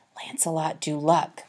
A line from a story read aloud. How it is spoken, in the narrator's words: Horatio whispered back